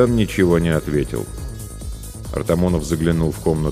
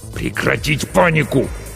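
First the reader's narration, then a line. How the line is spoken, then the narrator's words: Hissed. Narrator (Russian): снова прошипел капитан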